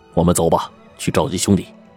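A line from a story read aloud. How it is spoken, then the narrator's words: Hushed low voice. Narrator (Chinese): 青山客压低声音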